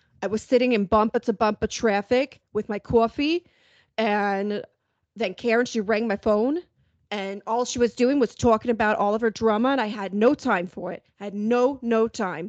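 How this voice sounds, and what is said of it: Exaggerated Long Island accent. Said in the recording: “a pretty great Long Island accent ... you could be on The Sopranos with that voice”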